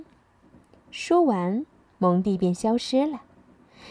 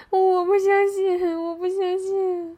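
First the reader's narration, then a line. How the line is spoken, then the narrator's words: Frightened, sobbing. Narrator (Chinese): 蒙蒂近距离的看到了巫婆的丑陋面貌，大哭了起来，说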